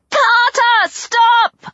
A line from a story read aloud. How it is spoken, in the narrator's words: I yelled